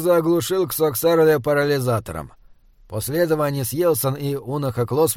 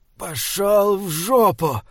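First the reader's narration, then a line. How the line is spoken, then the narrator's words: Strained breathless exhale. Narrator (Russian): с трудом выдохнул Эдиранин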